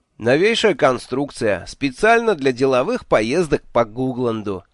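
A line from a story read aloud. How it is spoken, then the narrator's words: Cheerful explanation. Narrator (Russian): весело объяснил я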